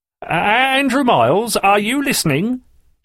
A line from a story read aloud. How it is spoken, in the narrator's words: shouted Mr